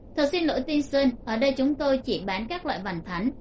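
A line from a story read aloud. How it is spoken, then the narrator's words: Dazed, hesitant. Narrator (Vietnamese): Người bán hàng bị mê hoặc, chóng mặt quay cuồng, sửng sốt một chút sau mới nói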